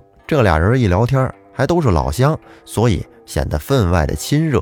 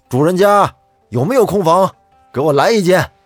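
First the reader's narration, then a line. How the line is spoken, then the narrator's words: Loud call. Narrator (Chinese): 有人大声的叫道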